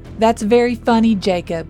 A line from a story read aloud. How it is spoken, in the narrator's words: Noah yelled back